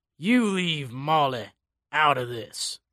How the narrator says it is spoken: he growled

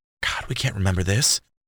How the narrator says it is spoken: Jordan sighed

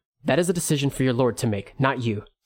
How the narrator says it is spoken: Suichi said curtly

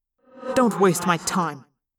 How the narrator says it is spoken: I snapped, trying to sound strong and unafraid

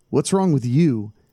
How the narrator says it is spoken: Tom asked

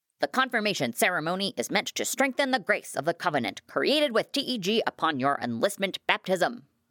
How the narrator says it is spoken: barked Herm

